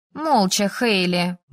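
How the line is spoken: Grumbling friend. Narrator (Russian): буркнула подруга

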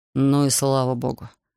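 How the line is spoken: Relieved sigh. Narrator (Russian): облегченно вздохнул Якоб

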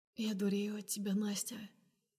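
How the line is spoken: Hoarse. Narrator (Russian): проговариваю сипло

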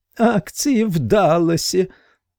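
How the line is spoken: Muffled shrill moan. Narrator (Russian): обеими ладонями зажал себе рот и визгливо простонал

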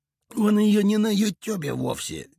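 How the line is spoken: Reluctant grumble. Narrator (Russian): неохотно пробурчал Иголка

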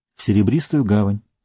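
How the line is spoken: Calm reply. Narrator (Russian): спокойно ответил Фродо

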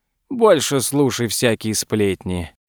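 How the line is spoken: Lazy reply. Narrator (Russian): лениво отозвался второй

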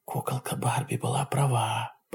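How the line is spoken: Whispered. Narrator (Russian): прошептала Нора

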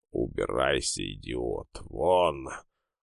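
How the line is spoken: Through gritted teeth, over speaker. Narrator (Russian): процедил голос из динамика

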